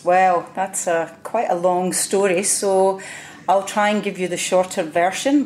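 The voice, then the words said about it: Scottish accent. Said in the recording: “you have a Scottish accent”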